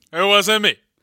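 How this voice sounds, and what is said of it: Imitates singer Shaggy's voice. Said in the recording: “my Shaggy impression”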